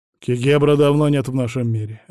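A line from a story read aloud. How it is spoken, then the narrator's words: Sharp reply. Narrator (Russian): резко ответил он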